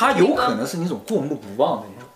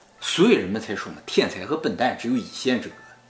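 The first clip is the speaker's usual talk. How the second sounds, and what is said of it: Mock Dalian upper-class accent. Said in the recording (Chinese): “这是大连上流社会口音吗？... 贵族口音。”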